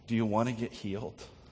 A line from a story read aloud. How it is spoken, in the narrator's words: Jesus tenderly comes to him and says